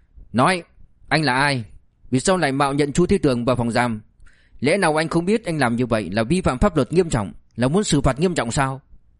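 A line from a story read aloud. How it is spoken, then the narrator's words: Sudden loud shout. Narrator (Vietnamese): Lưu ông bỗng quát lớn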